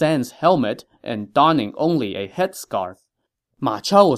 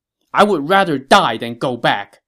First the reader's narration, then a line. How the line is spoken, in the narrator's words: he shouted